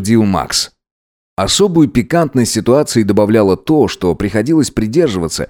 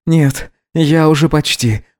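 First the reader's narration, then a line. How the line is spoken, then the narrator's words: Breathless, restrained exhale. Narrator (Russian): выдохнул Гидеон, больше сдерживая себя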